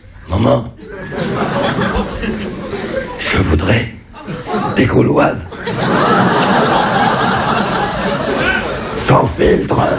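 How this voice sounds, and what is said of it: Raspy throat-cancer voice imitation. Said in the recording (French): “c'est mon père qui a un cancer de la gorge ... imiter l'accent cancéreux”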